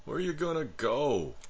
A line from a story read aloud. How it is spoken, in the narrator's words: I asked in a painfully pleading voice